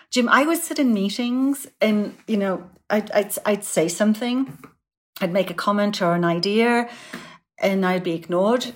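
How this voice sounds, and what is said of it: British accent, quiet soft voice. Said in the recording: “I've got a funny accent ... my British voice, my tone and tenor is a little bit quieter and softer”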